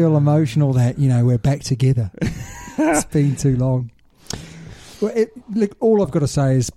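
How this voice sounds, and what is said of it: Usual voice. Nothing is said of it.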